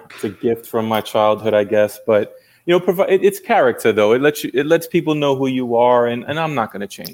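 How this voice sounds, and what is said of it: New York accent. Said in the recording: “I love being a native New Yorker ... Even your accent doesn't match up yet ... the accent's always going to be there”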